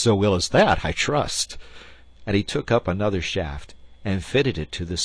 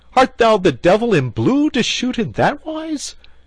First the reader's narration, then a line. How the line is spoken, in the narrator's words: cried Gilbert